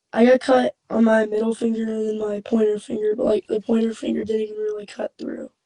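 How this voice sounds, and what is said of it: Sick, slightly odd-sounding voice. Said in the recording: “if I sound weird, I'm a little sick.”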